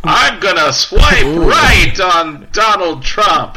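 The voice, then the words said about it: Put-on southern accent. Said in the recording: “with a southern accent”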